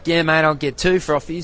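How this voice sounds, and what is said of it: Imitated Australian accent. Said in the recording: “hearing the accent ... I'm missing that accent.”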